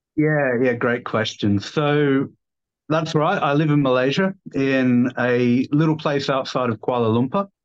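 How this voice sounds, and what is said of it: Slight Australian accent. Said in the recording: “You speak with a slightly down under accent.”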